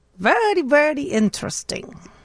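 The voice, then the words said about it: Mock German soldier accent, Dracula-like. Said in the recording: “That was part Dracula, part German soldier, but it worked for me”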